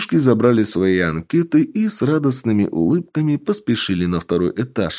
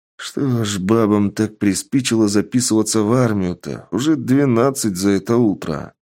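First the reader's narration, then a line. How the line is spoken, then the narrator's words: Grumble. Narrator (Russian): проворчал мужчина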